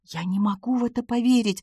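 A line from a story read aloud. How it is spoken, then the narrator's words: Whispered. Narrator (Russian): прошептала Джейн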